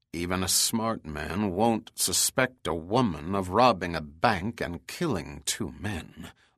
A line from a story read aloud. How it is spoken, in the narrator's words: muttered Cromwell